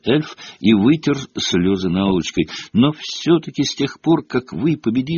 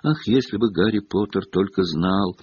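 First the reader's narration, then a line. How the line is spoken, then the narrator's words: Sighing, tearful. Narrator (Russian): вздохнул Добби, и слезы ручьем полились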